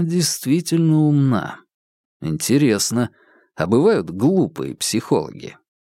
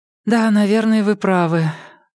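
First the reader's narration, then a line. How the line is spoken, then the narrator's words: Sighing. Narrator (Russian): Старова вздохнула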